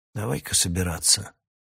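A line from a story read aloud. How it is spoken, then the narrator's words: Quiet, foreign language. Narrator (Russian): тихонько сказал Раканон на языке Ольгер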